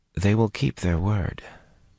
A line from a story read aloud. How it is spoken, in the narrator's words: Min murmured abruptly